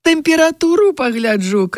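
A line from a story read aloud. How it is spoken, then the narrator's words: Woman shouting. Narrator (Belarusian): крычала адна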